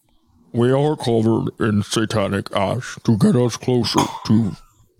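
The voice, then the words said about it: Imitates another person's voice. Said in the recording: “do your best impression ... Dude, that was really good ... if I had my eyes closed, I would have thought you were one of them for sure.”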